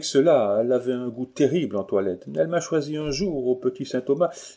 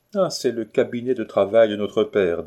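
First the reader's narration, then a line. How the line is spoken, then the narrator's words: Plain. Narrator (French): dit Zoé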